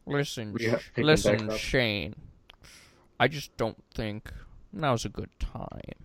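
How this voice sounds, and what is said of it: Imitates another person's voice. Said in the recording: “That's my Lorne impression.”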